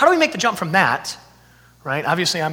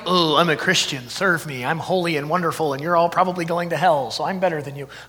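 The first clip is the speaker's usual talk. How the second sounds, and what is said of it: Sarcastic mocking delivery. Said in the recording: “I'm being sarcastic”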